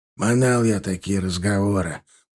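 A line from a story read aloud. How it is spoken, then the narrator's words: Grumbling mutter. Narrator (Russian): пробурчал Степаныч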